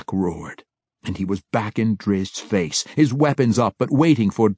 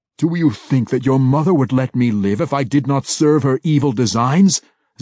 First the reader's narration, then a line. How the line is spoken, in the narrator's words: Zack cried